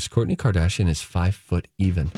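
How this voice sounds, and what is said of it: Serious, solemn announcer-like voice. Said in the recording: “Serious voice.”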